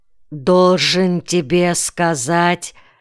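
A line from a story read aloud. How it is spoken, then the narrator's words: Strange, altered voice. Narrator (Russian): каким-то не своим голосом заговорил Кайон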